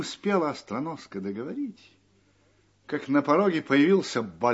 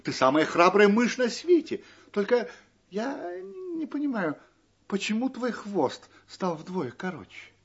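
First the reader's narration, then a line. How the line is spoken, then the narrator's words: Exclamation. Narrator (Russian): Остроноска воскликнула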